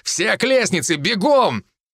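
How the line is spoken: Shouted. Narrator (Russian): крикнул

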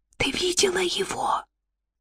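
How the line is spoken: Whispered. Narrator (Russian): прошептала Магда

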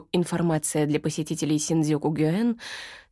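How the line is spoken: Calm commentary. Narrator (Russian): спокойно комментирует

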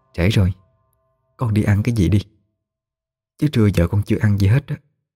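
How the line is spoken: Soft, into the ear. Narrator (Vietnamese): Chị Diễm nhỏ giọng nó vào tai nó

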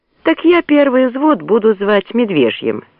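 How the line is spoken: Laughing. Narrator (Russian): рассмеялся Борейко

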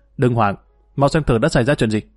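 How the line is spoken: Tense shout. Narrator (Vietnamese): Y căng thẳng quát lên

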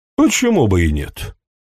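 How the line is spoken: Said in an everyday tone. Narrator (Russian): сказал он таким будничным тоном

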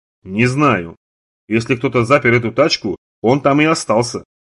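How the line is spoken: Plain. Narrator (Russian): ответил Юэн

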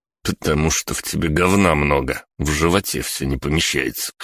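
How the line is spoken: Snorting remark. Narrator (Russian): хмыкнул я

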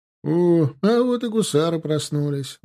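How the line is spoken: Mocking exclamation. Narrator (Russian): воскликнул насмешливо Блохин

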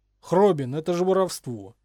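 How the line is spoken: Indignant exclamation, young mage. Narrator (Russian): с возмущением воскликнул юный маг

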